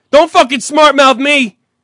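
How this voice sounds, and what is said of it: Yelling angrily. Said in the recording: “was yelling ... You're goddamn right I'm yelling.”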